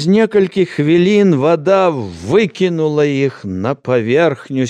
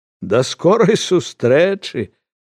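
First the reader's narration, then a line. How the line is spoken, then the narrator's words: Smiling. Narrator (Belarusian): усміхнуўся ён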